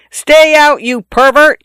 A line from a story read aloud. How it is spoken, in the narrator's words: I yelled in a voice not mine